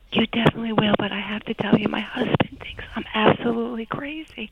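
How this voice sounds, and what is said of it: Whispering with a New York accent. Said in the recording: “New York accent ... in my whisper ... I still hear your accent ... I'm whispering”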